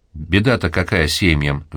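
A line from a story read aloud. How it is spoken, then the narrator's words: Sighed. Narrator (Russian): вздохнул Федор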